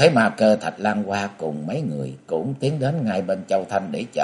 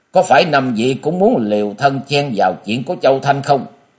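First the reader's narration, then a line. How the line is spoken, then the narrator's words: Loud shout. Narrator (Vietnamese): Diệu thủ thư sinh thét lớn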